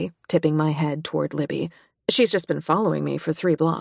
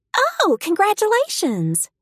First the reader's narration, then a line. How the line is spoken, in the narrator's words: the hostess says brightly